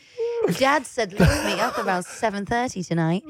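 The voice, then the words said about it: Put-on posh accent. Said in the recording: “Why did that accent? Why do you have to do that accent? ... Why am I posh now? ... the way you're saying it, you're going like, Dad said.”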